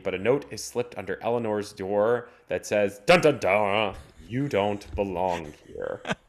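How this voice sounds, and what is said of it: Over-the-top dramatic narration. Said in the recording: “you went full drama instead of radio announcer”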